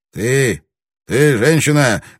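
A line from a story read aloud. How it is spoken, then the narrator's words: Rude call, young samurai. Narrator (Russian): грубо окликнул ее проходивший мимо молодой самурай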